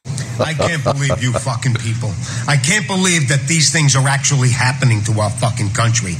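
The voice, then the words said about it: New York accent, Andrew Dice Clay-like cadence. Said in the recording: “Andrew Dice Clay 2.0. That's what this guy reminds me of ... is he trying to do a Dice impersonation ... The same intonation, same cadence ... That's a very, very common sound in New York, in the boroughs.”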